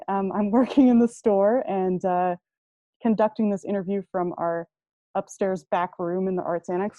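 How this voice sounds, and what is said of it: Slightly muffled voice. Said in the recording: “my voice is a little bit muffled today”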